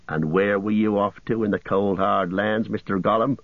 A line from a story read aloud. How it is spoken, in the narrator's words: growled